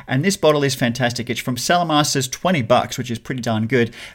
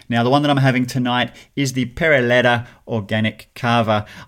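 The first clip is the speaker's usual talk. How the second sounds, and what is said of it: Put-on Spanish accent. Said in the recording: “I say it in that typical accent because I'm trying to be Spanish”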